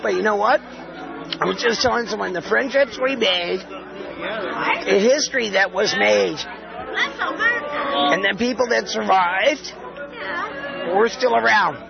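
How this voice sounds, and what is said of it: Hoarse, strained, barely-there voice. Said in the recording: “I lost my voice”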